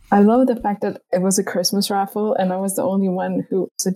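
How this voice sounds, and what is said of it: Usual voice. Nothing is said of it.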